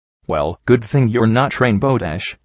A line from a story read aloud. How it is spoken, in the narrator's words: I replied firmly